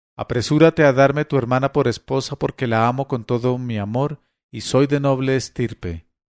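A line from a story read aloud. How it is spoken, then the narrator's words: Exclaimed. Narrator (Spanish): exclamé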